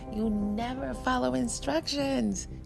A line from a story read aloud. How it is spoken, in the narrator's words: she laughed